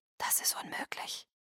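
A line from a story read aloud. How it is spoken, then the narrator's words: Whisper. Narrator (German): flüsterte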